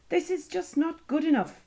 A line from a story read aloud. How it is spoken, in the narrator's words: she cried